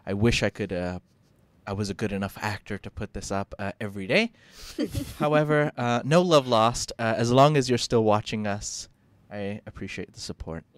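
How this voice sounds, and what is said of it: Mixed British-American international accent. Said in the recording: “fake British accent ... my accent's not actually British. Neither is it very American. It's just kind of a confused accent in the middle ... an international accent”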